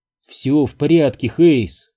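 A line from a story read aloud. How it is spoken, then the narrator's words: Calm tone. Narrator (Russian): произнесла спокойным тоном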